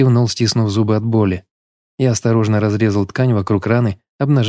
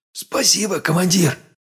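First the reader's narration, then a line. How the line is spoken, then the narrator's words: Tired smiling whisper. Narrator (Russian): прошептал, устало улыбаясь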